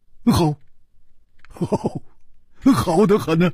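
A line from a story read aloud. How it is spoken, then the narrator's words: Cheerful grinning. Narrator (Chinese): 胡铁花笑嘻嘻地说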